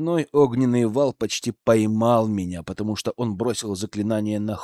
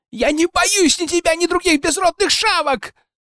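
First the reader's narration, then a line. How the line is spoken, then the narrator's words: Falsetto yelling. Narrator (Russian): орал фальцетом Дракус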